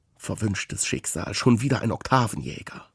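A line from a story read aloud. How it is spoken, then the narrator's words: Mutter. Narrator (German): murmelt es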